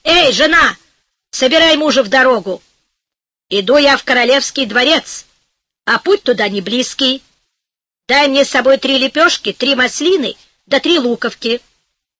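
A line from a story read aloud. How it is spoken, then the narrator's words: Shouted. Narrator (Russian): крикнул жене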